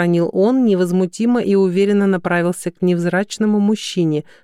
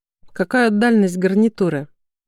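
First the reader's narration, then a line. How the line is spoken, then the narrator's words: Dry clarifying question. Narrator (Russian): сухо уточнил Краснов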